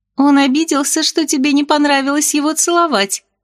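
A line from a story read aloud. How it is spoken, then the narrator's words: Giggling. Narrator (Russian): хихикнула Сильфида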